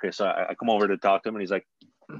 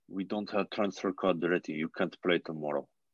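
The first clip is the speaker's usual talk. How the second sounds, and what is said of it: Put-on Russian accent. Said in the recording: “My Russian accent is on point, by the way. ... can uh, hear that.”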